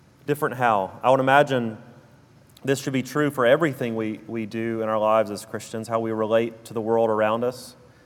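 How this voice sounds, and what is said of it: Southern US drawl. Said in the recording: “my South Alabama drawl”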